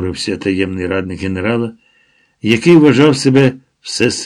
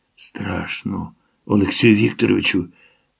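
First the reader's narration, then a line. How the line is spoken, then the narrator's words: Whisper close to ear. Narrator (Ukrainian): зашепотів він майже в саме вухо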